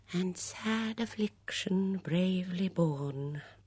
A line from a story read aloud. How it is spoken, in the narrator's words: murmured Miss Banner, her eyes suffusing with tears